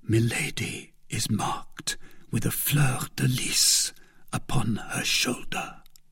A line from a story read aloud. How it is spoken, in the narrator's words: replied D'Artagnan, lowering his voice